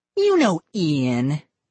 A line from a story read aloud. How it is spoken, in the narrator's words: Molly said, sneering